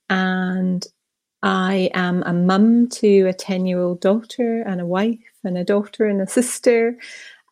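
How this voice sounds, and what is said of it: Scottish accent. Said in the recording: “The accent may give away that I'm originally from Scotland”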